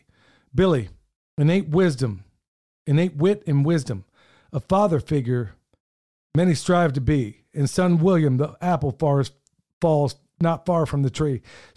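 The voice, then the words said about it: Choked-up, emotional voice. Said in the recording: “I'm getting a little bit choked up here”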